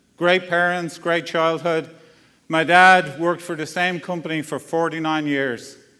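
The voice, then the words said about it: Irish accent. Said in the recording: “my accent is a little bit different, right? ... grew up in Dublin, Ireland, spent the first 35 years of my life there”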